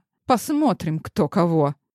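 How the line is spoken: Otherworldly woman's smirking snort. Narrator (Russian): хмыкнула иномерянка

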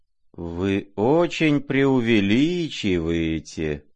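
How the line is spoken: Bored, sheepish drawl. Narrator (Russian): протянул Иван Петрович с некоторой скукой и даже как будто чего-то совестясь

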